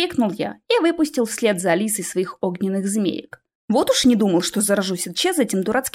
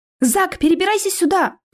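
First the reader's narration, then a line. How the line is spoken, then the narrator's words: Shouted from a distance. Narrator (Russian): крикнула мне Алиса из-за каменной насыпи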